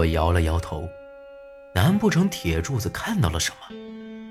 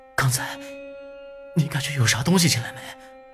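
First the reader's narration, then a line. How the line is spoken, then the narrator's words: Breathless, panting. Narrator (Chinese): 铁柱子喘了几口粗气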